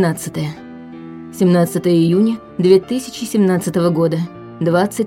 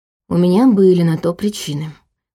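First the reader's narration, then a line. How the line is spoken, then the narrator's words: Gloomy explanation. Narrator (Russian): мрачно пояснила она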